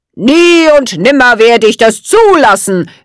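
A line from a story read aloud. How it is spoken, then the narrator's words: Called out. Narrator (German): rief er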